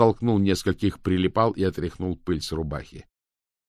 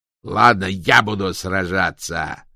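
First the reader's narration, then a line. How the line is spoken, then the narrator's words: Barked. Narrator (Russian): рявкнул Кокс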